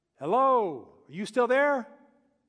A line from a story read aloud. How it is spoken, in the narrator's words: called out into the dark